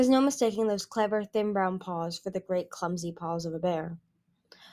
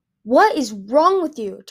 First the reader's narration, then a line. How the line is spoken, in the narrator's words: Tundra's voice suddenly shrieked